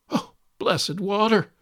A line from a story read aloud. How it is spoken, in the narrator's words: exclaimed Midas